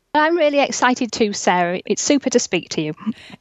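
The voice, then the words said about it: English Yorkshire accent. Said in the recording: “this amazing accent ... East Yorkshire coast in England”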